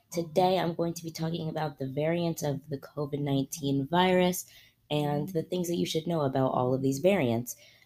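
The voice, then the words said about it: Raspy voice, mild laryngitis. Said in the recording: “lost my voice ... a bit of a mild case of laryngitis ... a bit of a raspier tone”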